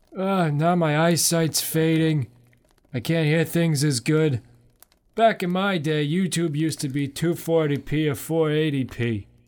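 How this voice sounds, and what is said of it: Put-on old man voice. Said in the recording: “old man voice”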